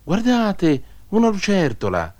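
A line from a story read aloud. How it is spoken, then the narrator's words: Child shouting. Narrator (Italian): Un bimbo gridò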